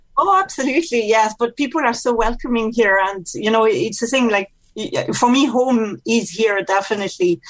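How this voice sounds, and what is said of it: French accent with slight Irish tinge. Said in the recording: “it's very clear that I'm French from my accent ... there's a little bit of Mead accent with the French accent”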